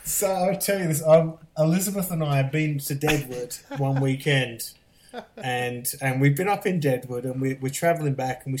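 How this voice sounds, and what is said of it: Mid-Atlantic British-American accent. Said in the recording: “This accent doesn't belong anywhere now ... It belongs somewhere in the middle of the Atlantic Ocean ... people back in the UK and they make fun of how I talk ... the majority of people think I'm Australian”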